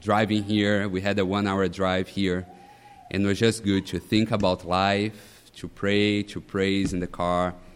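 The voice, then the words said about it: Brazilian Portuguese accent in English. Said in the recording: “my accent, but I'm not American. My family, my wife and I, we are from Brazil”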